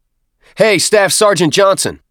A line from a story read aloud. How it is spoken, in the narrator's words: the corpsman shouted